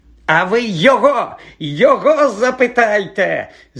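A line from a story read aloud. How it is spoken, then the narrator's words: Shrieking. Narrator (Ukrainian): заверещав Філч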